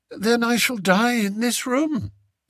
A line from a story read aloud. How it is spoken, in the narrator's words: said Lady Eslander calmly